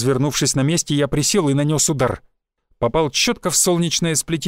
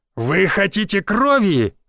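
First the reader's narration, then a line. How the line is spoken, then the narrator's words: Shouted to crowd. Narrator (Russian): выкрикнул я, обращаясь к публике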